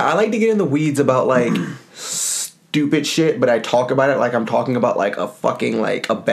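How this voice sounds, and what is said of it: Usual voice. Nothing is said of it.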